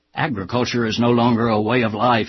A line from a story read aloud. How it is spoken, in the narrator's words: he barked